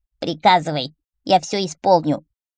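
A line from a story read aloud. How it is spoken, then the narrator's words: Creaky voice. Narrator (Russian): проскрипел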